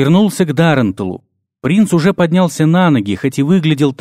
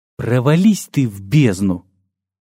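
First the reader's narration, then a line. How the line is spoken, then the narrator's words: Quiet. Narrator (Russian): тихо сказал я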